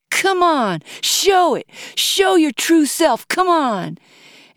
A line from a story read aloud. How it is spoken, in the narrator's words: practically begged for another round as she yelled